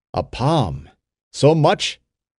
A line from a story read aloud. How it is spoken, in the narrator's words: cried Ben-Hur joyfully